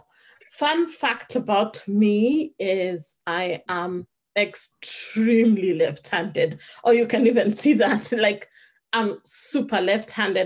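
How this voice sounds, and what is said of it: Kenyan British accent. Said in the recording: “I am a Kenyan girl with a Kenyan British accent”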